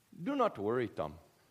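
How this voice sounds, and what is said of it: Attempted Bangladeshi accent, sounds Irish. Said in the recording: “Sort of sounded Irish there ... It was also a leprechaun ... I meant to do a Bangladeshi accent.”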